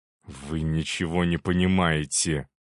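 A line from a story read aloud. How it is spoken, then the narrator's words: Hissing. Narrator (Russian): прошипел Корнилов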